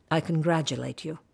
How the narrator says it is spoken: she would say coldly

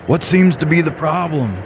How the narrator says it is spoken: yelled the truck driver

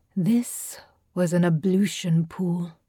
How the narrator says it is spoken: Tabinda said gently, as if explaining to a child

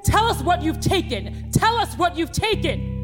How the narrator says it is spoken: The cops ... they're shouting

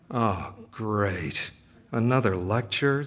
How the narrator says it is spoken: Zame mutters to himself

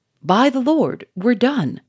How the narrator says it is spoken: cried Charolais

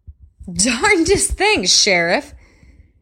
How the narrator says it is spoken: Brent said, laughing loudly

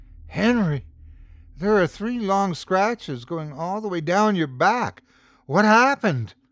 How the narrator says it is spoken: gasped

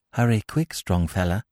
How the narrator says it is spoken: said Zami softly

